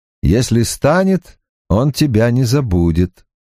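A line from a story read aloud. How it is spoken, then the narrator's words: Cheerful reply. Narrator (Russian): весело отвечает он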